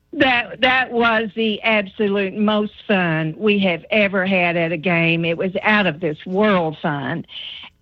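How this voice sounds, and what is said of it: Corbin regional accent. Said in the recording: “I love your Corbin accent.”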